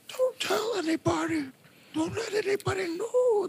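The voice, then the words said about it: Weird old-man cartoon voice. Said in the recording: “He's using that Grandpa Simpson voice ... That's a weird voice like that. Sort of like Grandpa Simpson.”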